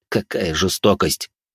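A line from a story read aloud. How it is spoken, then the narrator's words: Skeptical grumble. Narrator (Russian): буркнул Жозе, явно не до конца веря моей истории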